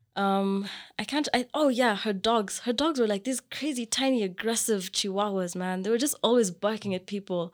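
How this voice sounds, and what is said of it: Kenyan accent. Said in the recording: “you sound a little bit funny. Like, your accent sounds different. ... I'm from Kenya.”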